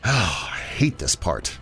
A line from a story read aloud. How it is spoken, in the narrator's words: muttered